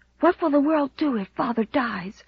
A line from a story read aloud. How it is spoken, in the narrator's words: whispered Walter, white-lipped